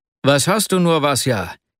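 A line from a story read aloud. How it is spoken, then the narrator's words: Exclaimed. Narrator (German): rief er schließlich aus, als er ihn mit großer Mühe einholte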